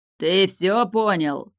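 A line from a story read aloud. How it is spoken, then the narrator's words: King shouting. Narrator (Russian): прокричал король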